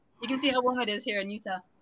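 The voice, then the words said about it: Sarcastic tone. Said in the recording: “that was sarcasm, right? That was sarcasm. ... A little bit. ... Total sarcasm.”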